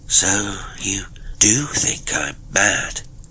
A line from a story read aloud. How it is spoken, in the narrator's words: he exclaimed slowly